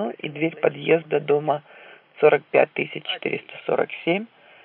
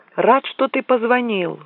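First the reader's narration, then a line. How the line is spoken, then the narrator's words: Exclaimed. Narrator (Russian): воскликнул Олстон Чамберс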